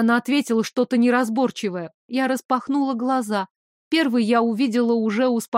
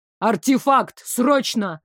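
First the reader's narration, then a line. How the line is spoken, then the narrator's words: Sharp bark. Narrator (Russian): рявкнул Дамиан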